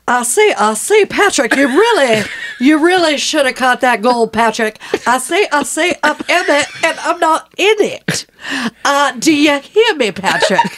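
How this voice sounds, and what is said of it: Angry Foghorn Leghorn-style Canadian voice. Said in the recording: “my Canadian voice. My angry Canadian voice ... the accent is in Foghorn Leghorn”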